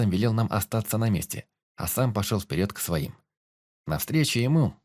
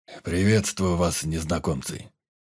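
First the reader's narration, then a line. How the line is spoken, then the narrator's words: Rough, powerful voice. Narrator (Russian): Грубым голосом, полным силы, произнес Быколюд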